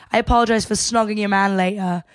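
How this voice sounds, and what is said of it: Put-on accent quoting a reality-show contestant. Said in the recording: “are my accents good? I don't know. I hope they are. I hope they're getting better.”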